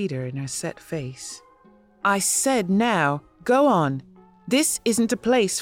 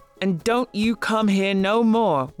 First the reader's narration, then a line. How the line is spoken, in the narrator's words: one of the men yelled when I was almost out of sight